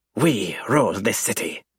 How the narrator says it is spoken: the triad snarls

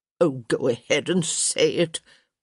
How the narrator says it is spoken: Lady Dee grumbled

